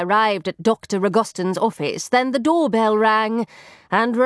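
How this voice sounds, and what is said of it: Usual voice. Nothing is said of it.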